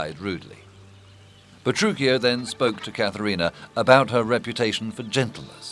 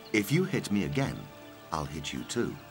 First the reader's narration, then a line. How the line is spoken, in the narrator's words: said calmly